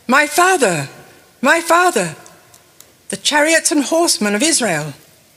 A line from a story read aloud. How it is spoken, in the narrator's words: Elisha saw this and cried out